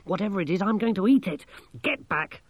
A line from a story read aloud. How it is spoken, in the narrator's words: Masklin snapped